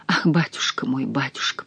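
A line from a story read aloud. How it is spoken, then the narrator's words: Whispered. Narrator (Russian): прошептала я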